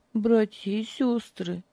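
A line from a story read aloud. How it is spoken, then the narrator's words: Quiet, calmer. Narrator (Russian): тихо заговорила она, немного успокоившись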